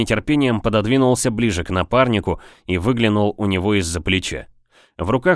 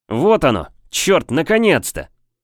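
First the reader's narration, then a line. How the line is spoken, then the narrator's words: Loud triumphant shout. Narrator (Russian): с громким победоносным возгласом, заставившим меня вздрогнуть, прокричал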